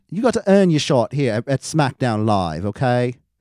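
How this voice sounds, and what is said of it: Put-on British accent. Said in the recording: “You got to say it in a British accent ... that's pretty bad, I know ... It was actually pretty good ... Better than I expected.”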